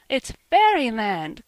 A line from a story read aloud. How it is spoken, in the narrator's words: cried little Davy, out of his wits with joy